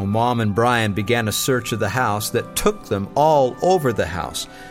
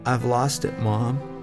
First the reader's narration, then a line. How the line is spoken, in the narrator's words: timidly he said